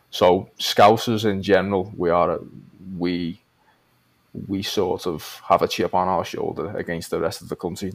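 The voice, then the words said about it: Scouse Liverpool accent. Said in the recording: “That's my accent. It's a Scouse accent. That's why it sounds like this. It's like a mixture of Irish and English and all sorts”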